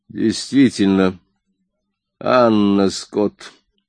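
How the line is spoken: Grim declaration. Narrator (Russian): мрачно заявил Коридан

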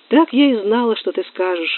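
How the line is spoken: Sighing. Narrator (Russian): вздохнула Нинеля

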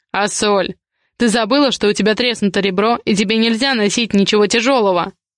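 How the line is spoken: Angry growl. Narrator (Russian): прорычал Ивар

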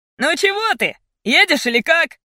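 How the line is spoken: Shouting. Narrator (Russian): Снова крикнул парень

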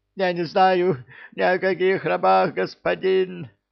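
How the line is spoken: Shrill squeal. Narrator (Russian): завизжал тот

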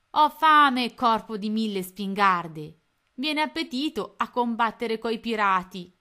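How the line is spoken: Shouted into the night. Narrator (Italian): gridò nella notte

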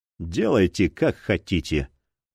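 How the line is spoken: Weary. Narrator (Russian): устало произнес Робинзон

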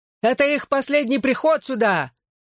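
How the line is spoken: Shout after someone. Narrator (Russian): крикнул вдогонку Лем

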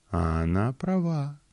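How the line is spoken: Soft purr, cat. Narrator (Russian): тихо промурлыкала кошка

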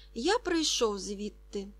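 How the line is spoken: Boy, plain. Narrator (Ukrainian): сказав хлопчик

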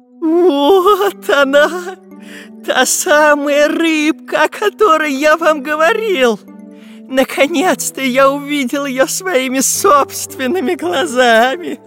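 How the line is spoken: Scientist's trembling voice. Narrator (Russian): Ученый дрожащим голосом произнес

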